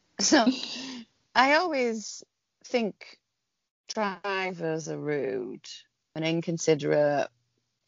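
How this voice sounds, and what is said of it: Northern English accent. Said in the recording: “I probably sound like a northerner now... You've still got it”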